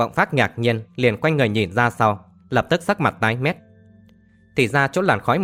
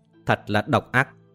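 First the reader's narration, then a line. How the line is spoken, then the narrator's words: Muttering through clenched teeth. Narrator (Vietnamese): Lộc Vọng Phác nghiến răng lẩm bẩm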